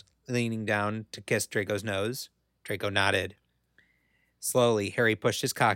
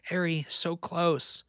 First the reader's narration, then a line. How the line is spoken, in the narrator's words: Draco gasped